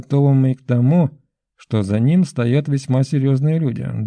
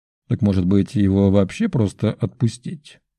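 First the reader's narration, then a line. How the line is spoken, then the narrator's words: Short laugh. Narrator (Russian): Коротко хохотнул в ответ граф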